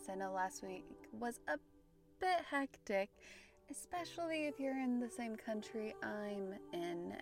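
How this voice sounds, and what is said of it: Standard American accent. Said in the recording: “my very standard American accent”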